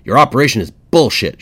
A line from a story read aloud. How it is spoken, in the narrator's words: yelled